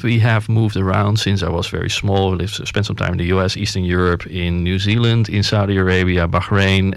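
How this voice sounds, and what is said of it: Mild Dutch accent. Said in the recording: “they will hear the accent ... it is a Dutch heritage accent, not a complete Dutch accent”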